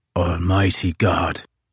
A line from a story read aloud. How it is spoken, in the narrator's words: intoned Crozier in his exhausted rasp